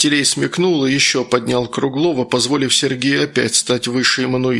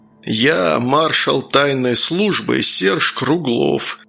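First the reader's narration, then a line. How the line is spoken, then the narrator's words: Growled. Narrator (Russian): прорычал Сергей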